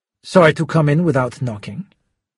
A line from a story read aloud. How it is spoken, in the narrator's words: Schubert said coolly